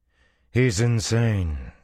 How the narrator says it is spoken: she said coolly

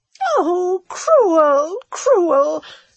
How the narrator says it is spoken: sobbed Redival

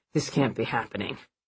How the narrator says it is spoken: he managed to mumble

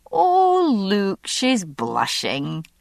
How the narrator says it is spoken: said Molly, giggling with delight

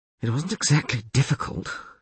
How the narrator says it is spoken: she muttered

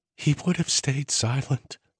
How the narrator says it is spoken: Arden whispered

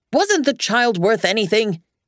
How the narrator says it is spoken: he shouted at Margaret

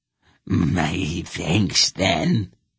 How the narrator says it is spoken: the wolf cackled

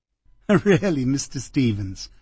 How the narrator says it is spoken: she said, also laughing a little

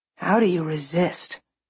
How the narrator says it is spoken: He murmurs

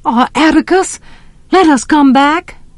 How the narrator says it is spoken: pleaded Jem

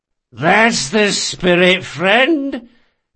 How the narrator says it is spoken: came a slurred voice

